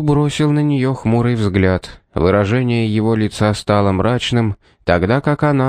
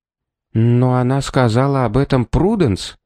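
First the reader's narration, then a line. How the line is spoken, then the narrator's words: Quiet speech. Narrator (Russian): тихо произнесла Шарлотта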